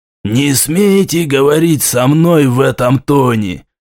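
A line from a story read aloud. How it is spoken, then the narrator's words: Prince hissing. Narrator (Russian): прошипел князь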